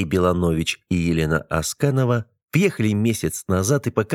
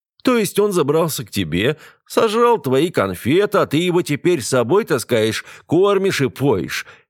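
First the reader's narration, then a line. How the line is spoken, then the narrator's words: Roaring laughter. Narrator (Russian): Алекс расхохотался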